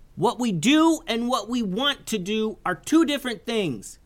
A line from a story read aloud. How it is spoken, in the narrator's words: yelled Isaiah